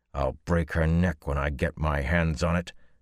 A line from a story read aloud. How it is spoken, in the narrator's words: growled